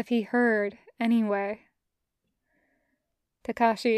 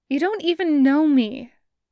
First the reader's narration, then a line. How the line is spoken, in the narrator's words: Takashi blurts